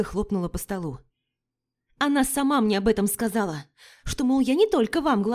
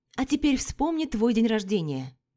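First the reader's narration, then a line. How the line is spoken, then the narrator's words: Plain. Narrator (Russian): сказала Вика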